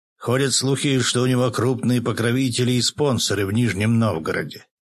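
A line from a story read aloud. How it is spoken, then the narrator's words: Plain reply. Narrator (Russian): ответил полковник Сычев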